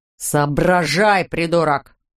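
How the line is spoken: Growl. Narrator (Russian): прорычал он

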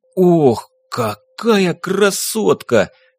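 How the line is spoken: Admiring exclamation. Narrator (Russian): воскликнул Гир с восхищением

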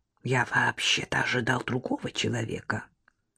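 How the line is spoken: Man whispering. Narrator (Russian): зашептал мужчина

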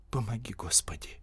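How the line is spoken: Whisper. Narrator (Russian): прошептала девушка

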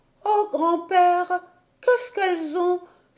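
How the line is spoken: Frightened exclamation. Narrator (French): s'écria Heidi tout effrayée

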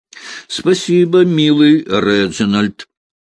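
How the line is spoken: Sobbing. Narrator (Russian): всхлипнула Рената

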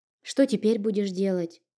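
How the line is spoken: Timid question. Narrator (Russian): робко спросила

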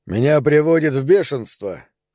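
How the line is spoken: Sudden exclamation. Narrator (Russian): внезапно воскликнул он

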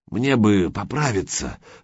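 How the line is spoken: Strained hoarse wheeze. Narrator (Russian): сдавленно прохрипел Гучко

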